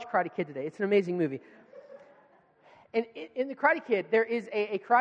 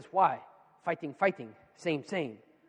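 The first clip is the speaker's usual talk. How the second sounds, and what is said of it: Impression of a movie karate teacher. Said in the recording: “That's my Mr. Miyagi impersonation.”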